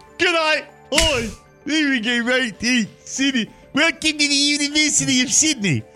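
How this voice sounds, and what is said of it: Attempted Australian accent, sounding South African. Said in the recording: “I always get my South African dialect to my Australian dialect confused.”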